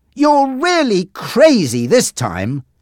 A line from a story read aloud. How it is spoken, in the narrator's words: shouted